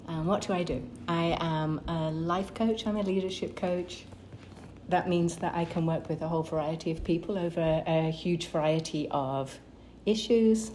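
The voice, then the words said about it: British accent. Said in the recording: “Grew up in the UK. The accent usually gives it away.”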